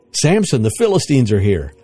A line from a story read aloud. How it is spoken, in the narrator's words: she cried